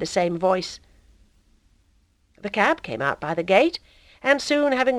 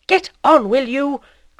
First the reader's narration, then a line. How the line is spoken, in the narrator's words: cried the voice more furiously